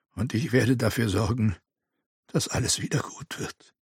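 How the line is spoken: Murmur. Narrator (German): murmelte er

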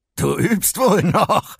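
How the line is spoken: Laughing. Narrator (German): meinte Electro lachend

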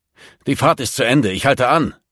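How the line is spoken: Roaring. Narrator (German): brüllte Hockensen

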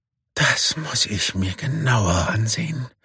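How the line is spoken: Murmuring. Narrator (German): murmelt Sami

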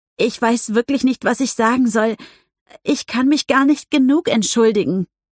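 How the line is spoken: Stammering. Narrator (German): stammelte sie

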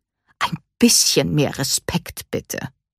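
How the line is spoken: Stern grandmother's admonition. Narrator (German): mahnte ihre Oma streng

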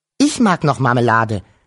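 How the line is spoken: Quick interrupting call. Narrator (German): rief Wuschel sofort dazwischen

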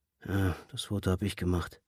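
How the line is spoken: Absent-minded murmur. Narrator (German): murmelte er gedankenverloren

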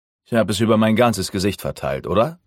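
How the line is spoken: Plain question. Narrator (German): fragte ich

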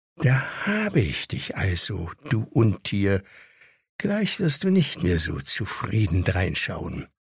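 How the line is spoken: Quietly to himself. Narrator (German): Herakles sagte leise zu sich

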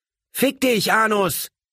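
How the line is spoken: Someone screams. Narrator (German): schrie irgendjemand

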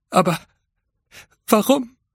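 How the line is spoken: Flight attendant stammering. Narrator (German): stammelte die Flugbegleiterin

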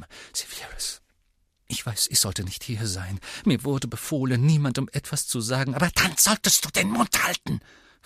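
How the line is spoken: Hissing angrily. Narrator (German): fauchte

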